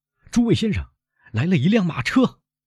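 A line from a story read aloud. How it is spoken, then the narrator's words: Calling out. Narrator (Chinese): 一个待在栏杆旁瞭望的来宾叫道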